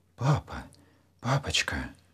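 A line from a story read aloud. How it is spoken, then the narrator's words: Anxious whisper. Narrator (Russian): тревожно зашептал Саша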